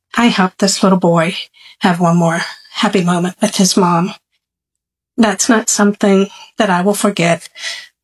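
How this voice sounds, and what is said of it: Emotional, saddened voice. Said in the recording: “you can probably hear in my voice that this was not a end of a happy day”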